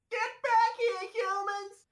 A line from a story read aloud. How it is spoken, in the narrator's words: Nasty Kathy shouts from inside